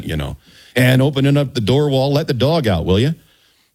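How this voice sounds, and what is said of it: Put-on Michigan accent. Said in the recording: “Oh, that Michigan accent”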